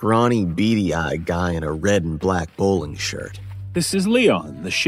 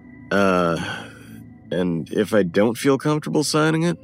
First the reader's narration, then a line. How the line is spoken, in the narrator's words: Bill chuckled